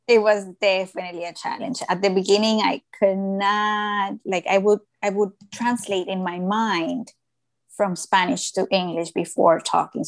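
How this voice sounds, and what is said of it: Hispanic accent. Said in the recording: “this thick ... Hispanic ... accent yeah. of mine.”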